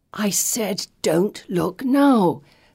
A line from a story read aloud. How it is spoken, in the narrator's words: Felicity hisses through clenched teeth